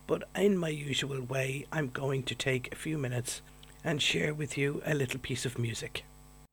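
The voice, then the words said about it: Voice affected by a cold. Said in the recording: “I want to apologise for my voice this week. I have a bit of a cold,”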